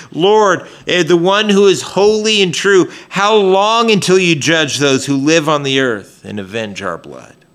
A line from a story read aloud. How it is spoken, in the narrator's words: The tribulation martyrs cried out with a loud voice